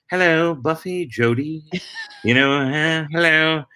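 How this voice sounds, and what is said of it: Put-on English butler accent. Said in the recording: “to be like Mr. French... that would be the word that would set me into Mr. French... my English impression is like Dick Van Dyke and Mary Poppins... it's just a tad better... you could see I go in and out of it”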